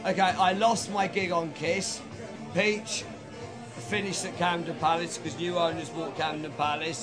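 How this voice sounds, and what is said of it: Mixed West and East London accent. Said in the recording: “West London, where we talk like this properly ... I worked in East London for a bit, so my accent's a bit weird”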